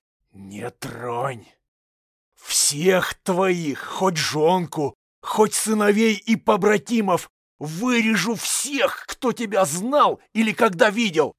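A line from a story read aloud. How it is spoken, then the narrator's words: Hiss. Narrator (Russian): прошипел Егор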